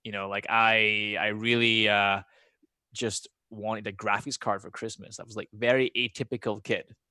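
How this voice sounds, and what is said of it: Mixed Scottish and American accent. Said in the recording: “I've got a funny accent ... My accent's like half Scottish, but more American now”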